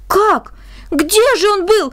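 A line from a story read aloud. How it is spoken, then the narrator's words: Amazed children exclaiming. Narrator (Russian): воскликнули изумленные дети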